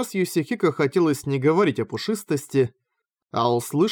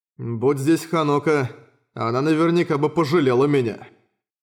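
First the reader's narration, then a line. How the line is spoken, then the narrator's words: Grumbled in thought. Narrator (Russian): мысленно проворчал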